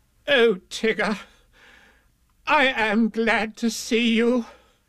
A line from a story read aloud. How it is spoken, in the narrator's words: cried Rabbit